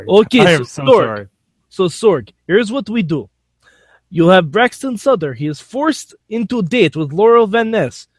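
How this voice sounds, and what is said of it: Poor put-on Russian accent. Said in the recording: “How do you like my Russian accent? Is it good? ... No. ... Not great. Honestly, not great.”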